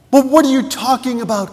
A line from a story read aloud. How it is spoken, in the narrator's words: cried the nobleman